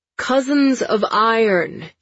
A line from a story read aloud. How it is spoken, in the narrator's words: he shouts